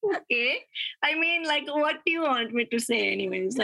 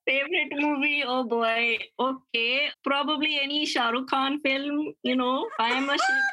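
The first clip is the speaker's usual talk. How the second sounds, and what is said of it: Put-on Indian accent. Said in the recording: “Do you know how to do Indian accent?”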